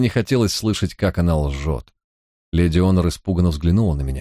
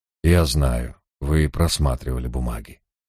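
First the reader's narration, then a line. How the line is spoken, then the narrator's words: Gently remarked. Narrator (Russian): мягко заметил я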